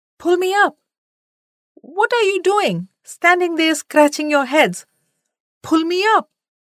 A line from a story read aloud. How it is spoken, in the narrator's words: the guru shouted